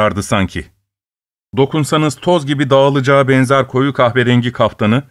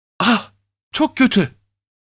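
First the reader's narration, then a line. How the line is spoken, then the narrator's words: Whispered. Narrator (Turkish): diye fısıldadı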